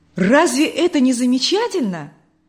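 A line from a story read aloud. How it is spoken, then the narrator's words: Joyful. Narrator (Russian): радостно продолжал Николай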